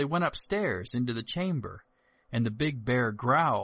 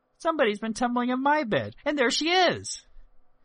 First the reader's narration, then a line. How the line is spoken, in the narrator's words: the little bear piped